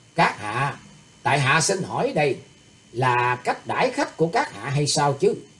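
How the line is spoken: Laughing. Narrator (Vietnamese): Thủy tướng Hạo nghe vậy đột nhiên bật cười lên nói

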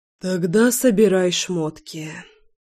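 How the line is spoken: Muttered. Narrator (Russian): пробормотал Лёша

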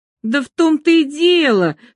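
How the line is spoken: Heated exclamation. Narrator (Russian): горячо воскликнул

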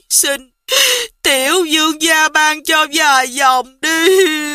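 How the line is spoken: Whimpering, on the verge of tears. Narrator (Vietnamese): Giảng quản gia mếu máo nói

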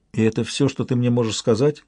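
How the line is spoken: Plain. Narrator (Russian): спросила она

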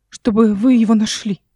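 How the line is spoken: Short frightened woman. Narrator (Russian): коротко испуганно сказала женщина

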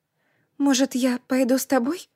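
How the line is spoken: Timid question. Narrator (Russian): робко спросила

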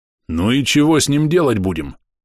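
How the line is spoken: Deep bass, burly man. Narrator (Russian): пробасил одноглазый волосатый детина, предположительно хозяин дома

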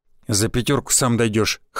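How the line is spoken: Snort, driver. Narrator (Russian): хмыкнул водила

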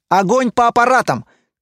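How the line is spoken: Shout. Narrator (Russian): крикнул Лайер

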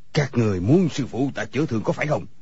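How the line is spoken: Shouted. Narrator (Vietnamese): người câu cá liền quát lên

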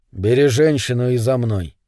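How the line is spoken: Calm but menacing. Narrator (Russian): сказал он спокойно, но грозно

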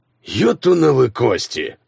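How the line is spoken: Growling. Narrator (Russian): прорычал он

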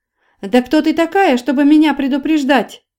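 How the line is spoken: Angry yelling. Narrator (Russian): заорала Вера, покраснев

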